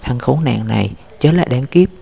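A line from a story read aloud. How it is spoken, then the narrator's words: Whisper. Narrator (Vietnamese): Có người thì thầm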